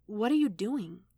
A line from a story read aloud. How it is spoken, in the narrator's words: Gamora muttered